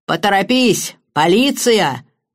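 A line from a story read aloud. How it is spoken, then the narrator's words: Woman roaring. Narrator (Russian): проревела мисс Хинчклифф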